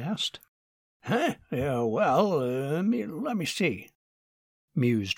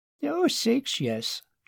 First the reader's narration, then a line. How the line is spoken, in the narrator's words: chuckled Mrs